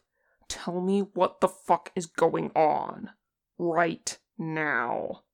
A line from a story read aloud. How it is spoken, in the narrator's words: snarled